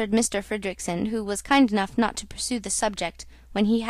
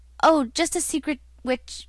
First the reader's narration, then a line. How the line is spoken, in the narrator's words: my uncle stammered